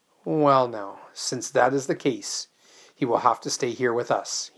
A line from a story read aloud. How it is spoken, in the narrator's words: he said coolly